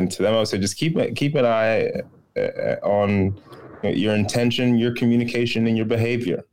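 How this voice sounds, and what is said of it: Usual voice. Nothing is said of it.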